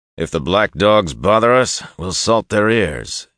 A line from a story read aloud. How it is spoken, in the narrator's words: he announced in a loud and hearty voice